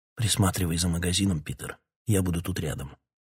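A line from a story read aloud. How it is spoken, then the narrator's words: Whisper. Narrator (Russian): Король прошептал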